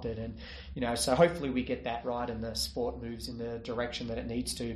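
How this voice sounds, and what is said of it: Australian accent. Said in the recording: “Still got your accent after all this time. ... Yeah, I'm still Aussie.”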